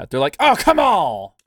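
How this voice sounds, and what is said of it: Bad put-on French accent. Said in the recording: “That was a really bad French accent”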